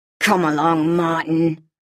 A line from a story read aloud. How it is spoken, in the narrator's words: he growled